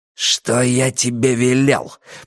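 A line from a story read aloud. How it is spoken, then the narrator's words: Growling. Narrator (Russian): прорычал Каз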